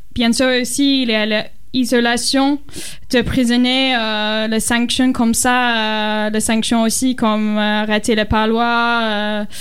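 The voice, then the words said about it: Strong foreign accent in French. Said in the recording (French): “mon accent c'est très fort”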